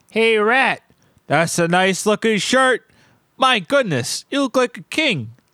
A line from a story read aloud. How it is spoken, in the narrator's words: the shopkeep called out